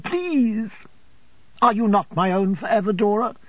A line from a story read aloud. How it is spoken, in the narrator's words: pleaded Dora